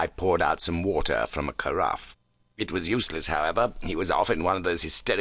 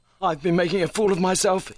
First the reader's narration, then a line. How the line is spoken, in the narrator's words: he gasped